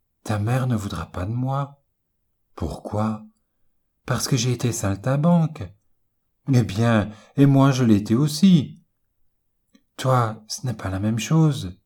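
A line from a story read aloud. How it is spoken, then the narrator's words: Sad. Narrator (French): dit-elle tristement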